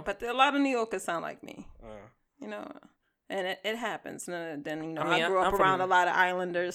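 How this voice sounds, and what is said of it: Slightly Boston-ish accent. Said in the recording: “I understand my accent can come off as Boston-ish ... It's like a little off Boston ... you're not right in the middle of Boston. You're like just on the outskirts”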